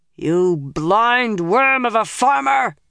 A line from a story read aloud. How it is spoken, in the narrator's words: roared